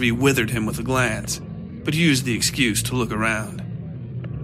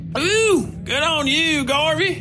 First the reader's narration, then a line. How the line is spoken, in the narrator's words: Wickliffe shouted from the table in the middle